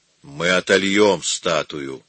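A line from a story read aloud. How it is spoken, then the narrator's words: Gloomy reply. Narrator (Russian): мрачно отвечал Микеланджело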